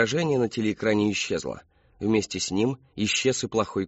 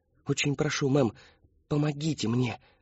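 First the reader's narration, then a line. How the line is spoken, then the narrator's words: Whispering. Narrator (Russian): зашептал он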